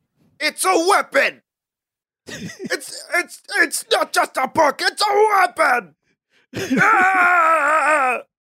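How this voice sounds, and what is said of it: Imitates another person's voice. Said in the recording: “your Gary Oldman impression ... That's Gary Oldman ... I was trying not to be too loud”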